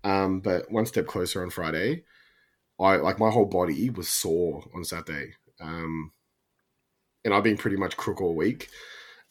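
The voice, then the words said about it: Sick-sounding voice. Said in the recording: “I've still been a bit crook, if you can't tell by my voice.”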